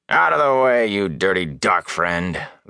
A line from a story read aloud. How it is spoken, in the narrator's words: the guard growled